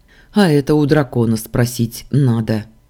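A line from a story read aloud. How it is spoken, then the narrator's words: Grumbled. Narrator (Russian): проворчал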